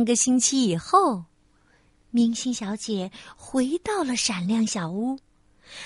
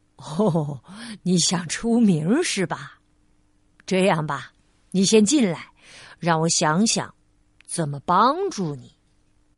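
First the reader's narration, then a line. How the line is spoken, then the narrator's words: Smiling. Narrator (Chinese): 那位先生笑着说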